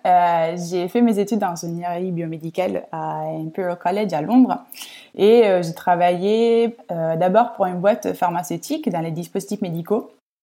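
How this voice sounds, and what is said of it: Italian accent speaking French. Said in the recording (French): “je pense que mon accent m'a trahi ... je suis euh, de Rome, je suis italienne”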